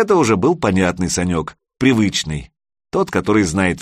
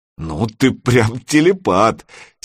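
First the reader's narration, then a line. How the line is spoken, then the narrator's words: Relieved laugh. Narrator (Russian): Серега облегченно засмеялся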